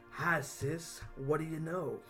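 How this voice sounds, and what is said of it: Psychopath character with southern drawl. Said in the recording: “give me your best, like, Cletus Cassidy psycho stabber dude ... that cool southern drawl”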